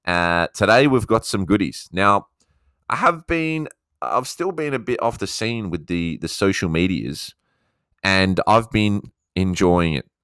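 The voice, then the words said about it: Australian accent. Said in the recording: “my Aussie accent, mate”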